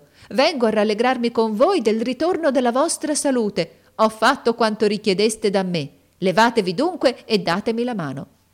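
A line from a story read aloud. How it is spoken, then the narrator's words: Shouted by a woman entering. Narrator (Italian): gridò essa entrando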